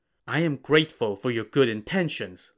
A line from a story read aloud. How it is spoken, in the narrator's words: Lin Chong said